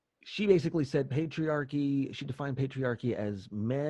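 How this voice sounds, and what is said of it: Usual voice. Nothing is said of it.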